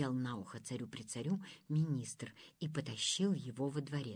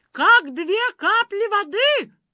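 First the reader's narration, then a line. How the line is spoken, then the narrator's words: Shout after them. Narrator (Russian): крикнул им вслед Уа-Уа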